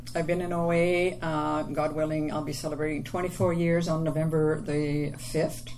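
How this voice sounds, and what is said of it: French Canadian accent. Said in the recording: “I'm from Quebec. ... I have the French accent.”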